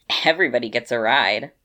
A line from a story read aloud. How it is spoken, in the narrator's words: said with a grin